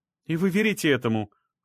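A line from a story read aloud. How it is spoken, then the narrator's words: Exclaiming. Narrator (Russian): воскликнула Оксана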